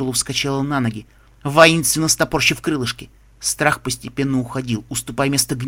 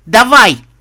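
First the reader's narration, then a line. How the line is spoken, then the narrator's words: Shout, voice breaking. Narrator (Russian): крикнула Скутала срывающимся голосом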